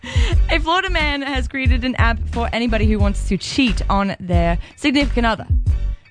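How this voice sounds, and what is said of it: Attempted British accent, not convincing. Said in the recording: “I can't do this accent at all. I'm trying... In my British accent for the day.”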